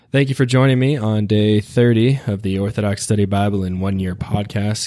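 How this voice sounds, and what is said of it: Raspy voice. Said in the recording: “I apologize for my raspy voice”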